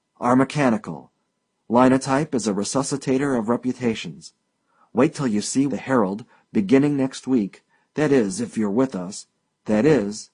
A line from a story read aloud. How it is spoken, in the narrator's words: his voice hardened slightly